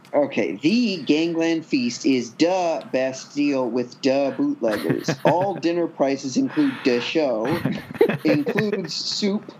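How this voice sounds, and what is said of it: Put-on accent. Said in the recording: “can do it in an accent.”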